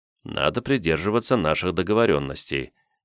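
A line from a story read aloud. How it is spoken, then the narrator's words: Quiet. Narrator (Russian): тихо произнес я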